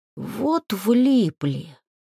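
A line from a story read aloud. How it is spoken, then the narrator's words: Breathless exhale. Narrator (Russian): выдохнул эльфик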